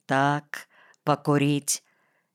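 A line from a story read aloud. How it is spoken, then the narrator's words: Quiet. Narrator (Russian): тихо сказал я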